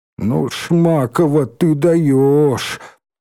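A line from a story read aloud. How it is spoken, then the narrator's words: Moaning. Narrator (Russian): простонал Валька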